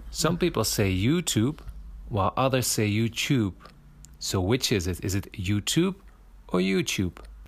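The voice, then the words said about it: Non-native accented English. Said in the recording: “Oh, his accent.”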